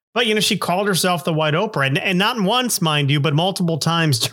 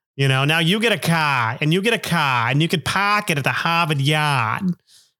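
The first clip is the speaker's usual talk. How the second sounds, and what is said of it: Bad put-on Massachusetts accent. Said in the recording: “that's a really terrible Massachusetts accent”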